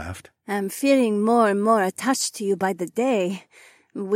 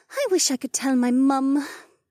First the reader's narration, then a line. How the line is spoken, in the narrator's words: Becca sighed